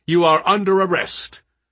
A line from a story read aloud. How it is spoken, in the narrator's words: Hitler barked